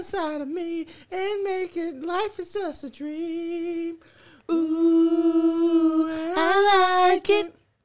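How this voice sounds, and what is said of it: Singing in high falsetto. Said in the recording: “You really got up there in that falsetto.”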